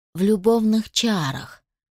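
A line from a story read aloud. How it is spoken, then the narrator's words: Gloomy sigh. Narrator (Russian): вздохнул бытовой маг, все это время угрюмо молчавший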